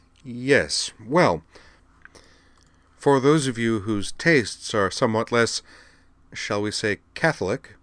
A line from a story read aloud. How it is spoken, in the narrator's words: said Monsieur Chalfant uneasily from the podium